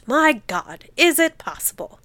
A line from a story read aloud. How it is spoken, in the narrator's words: B, watching with wonder-stricken eyes, exclaimed